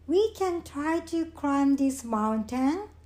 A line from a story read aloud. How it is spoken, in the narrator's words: said Frog